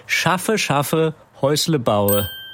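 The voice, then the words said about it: Spoken in a regional dialect. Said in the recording (German): “Etwas im Dialekt”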